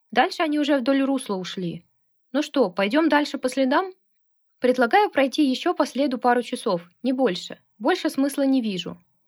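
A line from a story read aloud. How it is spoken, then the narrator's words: Plain. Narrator (Russian): сказал Алексей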